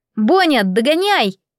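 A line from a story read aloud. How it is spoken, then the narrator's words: Loud shout. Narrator (Russian): закричал он на весь берег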